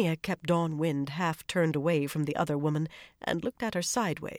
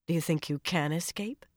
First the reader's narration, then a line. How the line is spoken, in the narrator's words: she asked quietly